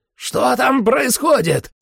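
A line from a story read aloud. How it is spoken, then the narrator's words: Shout. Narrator (Russian): закричал он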